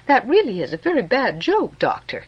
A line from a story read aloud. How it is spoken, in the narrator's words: I said laughingly